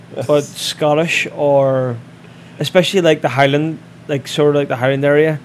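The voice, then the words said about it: Irish accent. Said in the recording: “Somebody from Ireland ... I've got an accent ... A wee bit.”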